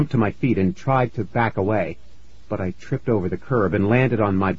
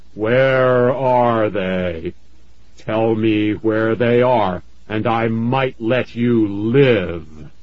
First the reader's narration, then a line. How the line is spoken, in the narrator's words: in a booming voice, so powerful it made the grass quiver and bend, he said